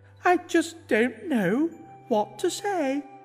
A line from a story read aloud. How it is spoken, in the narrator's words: he whimpered in bliss